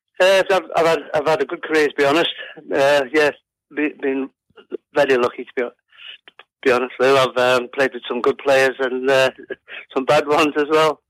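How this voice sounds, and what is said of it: Liverpool accent. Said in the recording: “I can see here that you were born in Liverpool. ... We can hear it too. ... You don't lose it. You don't lose your accent”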